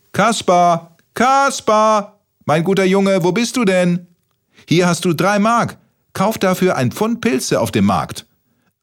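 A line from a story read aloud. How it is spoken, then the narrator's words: Grandmother calling from afar. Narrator (German): rief seine gute Oma aus der Küche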